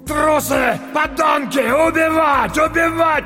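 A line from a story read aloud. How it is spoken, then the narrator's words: Older man shouting. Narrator (Russian): кричал немолодой, но еще крепкий, коренастый мужчина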